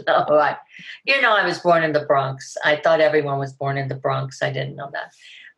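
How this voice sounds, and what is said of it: New York accent. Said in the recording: “your accent gives away a little bit where you grew up ... Nothing to do with New York, perhaps?”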